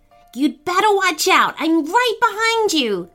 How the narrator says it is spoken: Charlotte called out to him

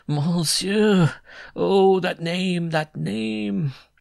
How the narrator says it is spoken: He sobbed out

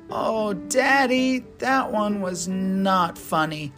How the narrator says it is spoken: Bubba groaned

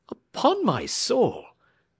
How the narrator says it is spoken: exclaimed James Playfair

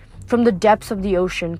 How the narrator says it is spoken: Kronos laughed so loudly the whole ship trembled

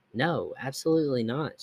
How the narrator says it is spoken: she answered

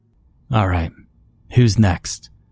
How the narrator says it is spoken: I said, sucking back a gasp of air

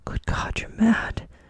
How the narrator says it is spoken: he cried aghast

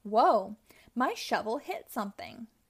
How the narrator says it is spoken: exclaimed Rubble

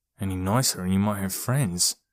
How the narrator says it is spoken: Odie muttered under his breath

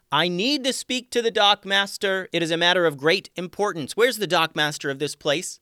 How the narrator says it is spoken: Tatiana was eager to get right to the point, so she just hollered out

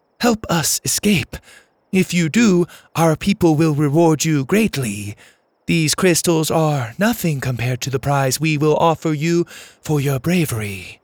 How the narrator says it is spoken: Laney pleaded

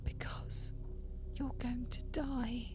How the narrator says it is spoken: She was still heaving and sobbing, but once again she brought her eyes up to mine and said very softly

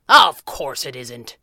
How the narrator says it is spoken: he bellowed

